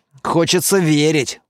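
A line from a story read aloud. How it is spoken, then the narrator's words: Gruff grumble. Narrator (Russian): буркнул Лаер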